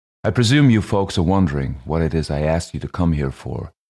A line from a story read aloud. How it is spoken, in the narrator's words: she said in her dead level voice